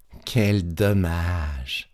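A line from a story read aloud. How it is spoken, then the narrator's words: Sighing. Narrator (French): soupira Petit Claus en voyant disparaître le gâteau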